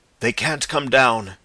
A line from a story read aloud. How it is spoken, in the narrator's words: panted Ostrog